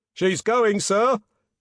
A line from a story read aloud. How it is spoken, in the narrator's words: yelled a voice from the forecastle